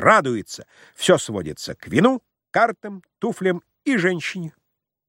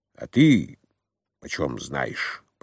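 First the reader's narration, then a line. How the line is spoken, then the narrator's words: Angry grumble. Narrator (Russian): проворчал Самойленко со злобой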